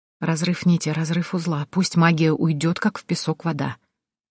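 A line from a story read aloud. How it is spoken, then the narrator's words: Whispered. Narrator (Russian): прошептала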